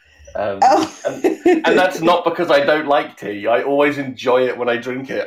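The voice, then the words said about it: British accent. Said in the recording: “British people ... All I have left is my accent now.”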